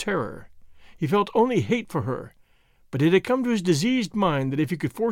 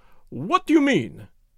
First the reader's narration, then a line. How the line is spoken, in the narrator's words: cried